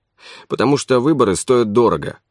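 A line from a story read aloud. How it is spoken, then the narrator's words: Gloomy. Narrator (Russian): мрачно сказал Марковин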